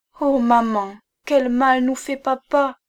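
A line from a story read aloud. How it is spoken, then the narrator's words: Exclaimed. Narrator (French): s'écria Hortense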